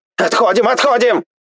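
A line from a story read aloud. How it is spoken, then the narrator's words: Yelled. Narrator (Russian): Заорал один из них, завидев нас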